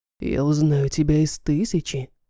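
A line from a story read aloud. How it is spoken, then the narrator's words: Whisper in ear. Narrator (Russian): шепнул он мне, наклонившись к уху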